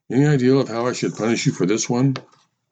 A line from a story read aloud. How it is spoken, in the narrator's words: sighed